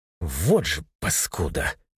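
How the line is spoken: Through clenched teeth. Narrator (Russian): процедил сквозь сжатые зубы Тимур

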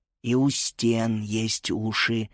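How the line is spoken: Barely audible. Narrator (Russian): еле слышно проговорила Эленора

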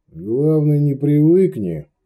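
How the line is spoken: Sighing. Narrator (Russian): вздохнул Иоганн

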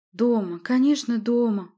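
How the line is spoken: Snuffly, deeply moved. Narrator (Russian): проговорила она сопливым, растроганным тоном

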